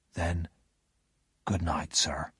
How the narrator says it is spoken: whispered

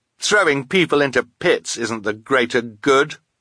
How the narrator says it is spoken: Quigley cried

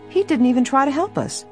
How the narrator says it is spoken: Helen said indignantly

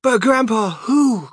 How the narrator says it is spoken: cried Charlie

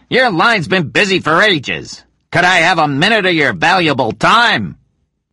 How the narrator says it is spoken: he shouted

